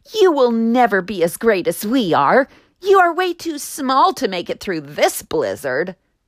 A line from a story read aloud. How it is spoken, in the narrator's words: called out